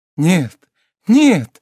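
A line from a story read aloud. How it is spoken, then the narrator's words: Naive young girl exclaiming. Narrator (Russian): с очаровательной наивностью воскликнула молодая девушка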